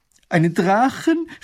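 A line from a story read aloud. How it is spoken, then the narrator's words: Horrified cry. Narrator (German): schreit Mathilde entsetzt auf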